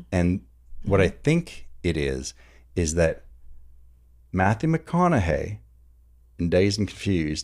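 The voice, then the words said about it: Put-on Southern accent. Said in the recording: “you started sliding into that Southern accent.”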